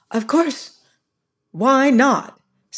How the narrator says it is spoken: said Caroline sternly

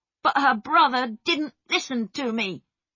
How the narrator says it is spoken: Peter said angrily

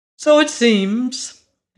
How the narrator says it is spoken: answered the little monarch cheerfully

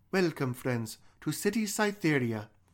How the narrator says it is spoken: in English exclaimed

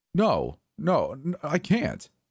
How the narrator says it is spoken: I stuttered

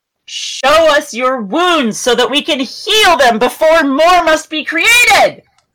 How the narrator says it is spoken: I'm yelling

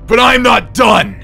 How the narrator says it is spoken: he screamed

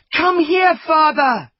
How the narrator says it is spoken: he shouted

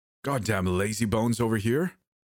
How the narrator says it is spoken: Madden exclaimed with a grin

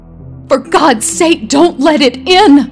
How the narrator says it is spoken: cried the old man, trembling

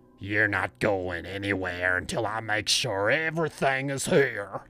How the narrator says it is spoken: growled

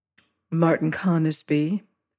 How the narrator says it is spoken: she amended in the same gentle voice

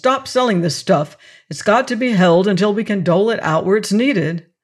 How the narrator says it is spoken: said sharply

